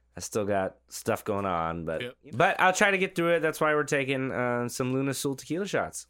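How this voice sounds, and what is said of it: Voice still rough after illness. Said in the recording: “I just got over COVID, my voice is still not all the way there”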